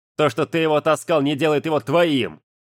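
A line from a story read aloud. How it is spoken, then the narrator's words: Barked sharply. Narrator (Russian): рявкнул Жан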